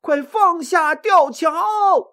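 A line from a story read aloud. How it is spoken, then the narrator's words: Loud shout. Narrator (Chinese): 刘备高喊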